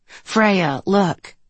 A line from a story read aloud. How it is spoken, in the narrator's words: Mom said